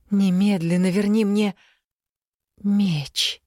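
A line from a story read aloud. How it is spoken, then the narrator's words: Breathed out. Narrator (Russian): выдохнула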